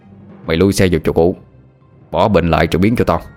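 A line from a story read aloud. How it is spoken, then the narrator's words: Harsh commanding. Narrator (Vietnamese): nó gằn giọng hướng về phía Tuấn rồi nói như ra lệnh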